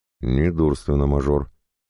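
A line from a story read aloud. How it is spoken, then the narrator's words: Through gritted teeth. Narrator (Russian): процедил сквозь зубы Рычков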